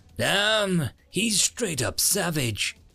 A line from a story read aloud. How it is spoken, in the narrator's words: he heard one say faintly